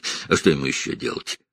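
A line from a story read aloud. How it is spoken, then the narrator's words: Snort. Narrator (Russian): хмыкнул Джейкоб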